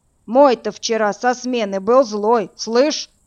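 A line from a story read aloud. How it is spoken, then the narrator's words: Deep bass voice. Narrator (Russian): пробасила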